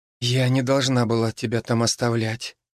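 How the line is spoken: Hoarse. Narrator (Russian): хрипло отозвалась

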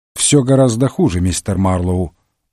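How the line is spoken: Gloomy remark. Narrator (Russian): мрачно заметил Холмс

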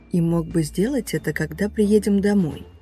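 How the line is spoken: Soft but stern mother. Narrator (Russian): мягко произнесла мама девочки, но при этом ее голос был строгим

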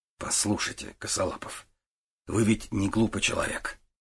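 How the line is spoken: Unexpectedly soft. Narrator (Russian): неожиданно мягко сказал Гуров

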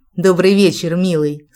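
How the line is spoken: Calm, smiling. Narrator (Russian): спокойно с улыбкой ответила я

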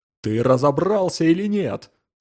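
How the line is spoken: Thunderous. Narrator (Russian): прогремел Джонсон

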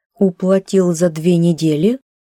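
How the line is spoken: Angry questioning. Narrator (Russian): злобно переспросила кассирша

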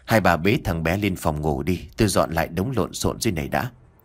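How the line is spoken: Sighing. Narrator (Vietnamese): Nam thở dài nói

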